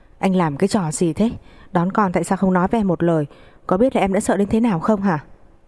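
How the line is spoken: Startled wailing. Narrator (Vietnamese): Ông cũng vì thế mà giật mình khóc thét

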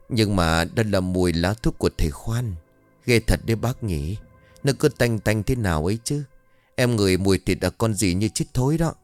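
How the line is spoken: Near whisper. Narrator (Vietnamese): Chị Nở bấy giờ nói nhỏ hơn gần như là thì thầm

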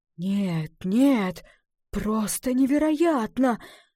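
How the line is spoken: Breathless exhale. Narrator (Russian): выдохнул лесник

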